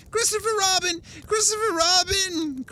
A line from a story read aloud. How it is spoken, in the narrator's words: cried Piglet